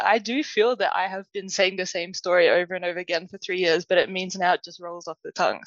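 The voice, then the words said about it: Australian accent. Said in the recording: “you can probably tell by my accent, I'm Australian.”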